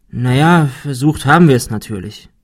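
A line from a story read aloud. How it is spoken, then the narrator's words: Sighing. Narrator (German): seufzte Ben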